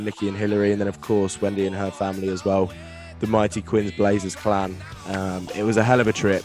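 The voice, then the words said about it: Strained, worn-out voice. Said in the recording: “I hope my voice has been bearable ... hopefully my voice will recover by the end of it”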